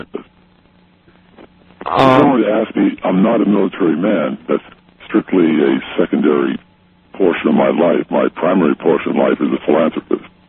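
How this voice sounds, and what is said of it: Electronically altered disguised voice. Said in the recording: “you wouldn't have to use a voice changer”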